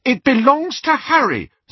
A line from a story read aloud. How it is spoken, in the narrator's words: said Hermione hotly